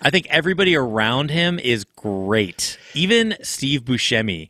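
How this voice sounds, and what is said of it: Usual voice. Nothing is said of it.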